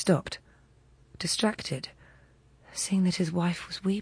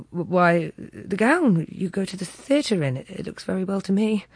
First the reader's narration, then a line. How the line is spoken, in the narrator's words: He stammered